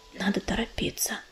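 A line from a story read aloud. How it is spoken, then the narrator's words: Quiet. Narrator (Russian): тихо сказал он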